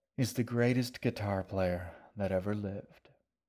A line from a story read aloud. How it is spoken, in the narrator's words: the shaggy man said with a contented sigh